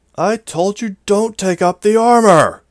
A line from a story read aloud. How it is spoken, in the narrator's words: He shouted from down on the ground